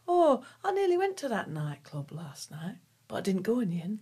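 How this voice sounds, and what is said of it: Imitated northern English accent. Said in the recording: “She was northern, that's my impression of a northern accent”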